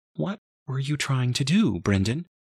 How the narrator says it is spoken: Her voice shook

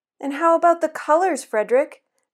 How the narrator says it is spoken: asked anxiously

